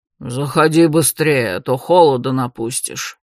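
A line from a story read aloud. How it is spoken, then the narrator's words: Displeased grumbling police chief. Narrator (Russian): недовольно проворчал шеф полиции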